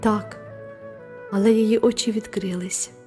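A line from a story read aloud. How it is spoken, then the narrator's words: Tender. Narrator (Ukrainian): ніжно сказала мадемуазель Віртут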